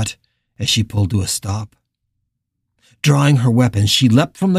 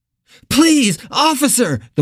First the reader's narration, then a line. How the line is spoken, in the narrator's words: the woman cried, cringing from Carla's gun